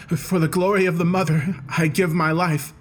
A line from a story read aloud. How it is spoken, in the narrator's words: he cried